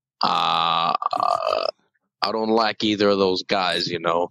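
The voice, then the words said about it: Accent drifting toward New York. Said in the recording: “if my accent slowly fades to New York ... this accent is just kind of fading into, like, New York”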